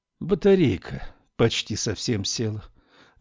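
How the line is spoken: Sighing. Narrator (Russian): вздохнула Камилла

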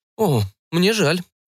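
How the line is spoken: Confused. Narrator (Russian): растерянно произнес вампир

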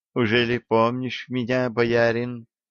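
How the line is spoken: Quiet young woman. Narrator (Russian): тихо ответила девушка

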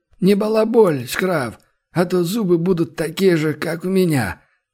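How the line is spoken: Good-natured reply. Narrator (Russian): добродушно отозвался Сиплый

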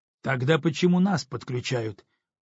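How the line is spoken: Angry puzzled voice. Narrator (Russian): продолжал сердито недоумевать Антон

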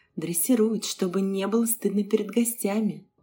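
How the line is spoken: Inward sigh. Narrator (Russian): вздохнула про себя Саша

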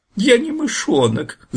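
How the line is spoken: Squeaky voice. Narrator (Russian): запищал Фир

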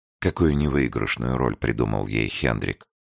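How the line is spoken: Silent inner sigh. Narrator (Russian): вздохнула про себя Барбара

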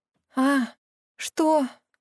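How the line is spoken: Sleepy mumble. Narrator (Russian): сонно забормотала Мия

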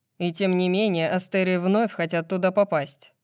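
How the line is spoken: Grumbling. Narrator (Russian): проворчал Баксиан

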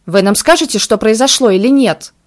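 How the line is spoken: Growled. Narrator (Russian): Рыкнула Марианна

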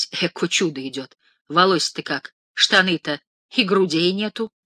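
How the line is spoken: Old women whispering. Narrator (Russian): Старухи шептались

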